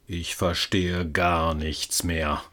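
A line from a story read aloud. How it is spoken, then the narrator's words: Despairing mutter. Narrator (German): murmelte verzweifelt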